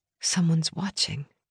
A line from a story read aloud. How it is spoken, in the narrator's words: I whispered